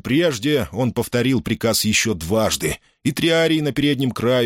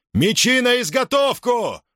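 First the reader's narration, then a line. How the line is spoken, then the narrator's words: Roaring. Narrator (Russian): взревел Юлий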